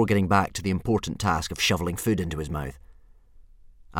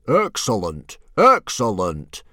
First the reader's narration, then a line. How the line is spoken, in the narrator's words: Stoic the Vast boomed